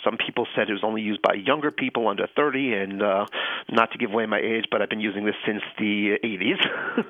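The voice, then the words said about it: Slight Long Island New York accent. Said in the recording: “I grew up in Long Island, New York... you can hear the accent... A little bit, yeah.”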